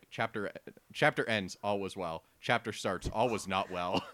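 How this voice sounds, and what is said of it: Big dramatic narrator voice. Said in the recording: “It's like big narrator voice.”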